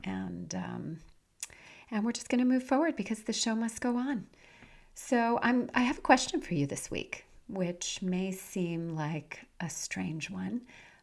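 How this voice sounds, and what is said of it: Raspy, nasal voice. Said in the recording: “my raspy voice. I am getting over a nasty head cold ... I still have that kind of nasal raspiness.”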